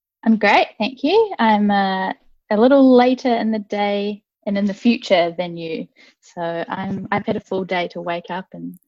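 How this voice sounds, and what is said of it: New Zealand accent. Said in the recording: “you don't have that Bradford accent. You've got the lovely Kiwi accent.”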